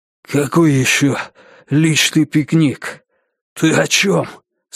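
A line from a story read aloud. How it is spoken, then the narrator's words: Unexpectedly hoarse question. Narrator (Russian): спросил неожиданно хриплым голосом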